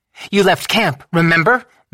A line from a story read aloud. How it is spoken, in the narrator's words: Madame LaBelle snapped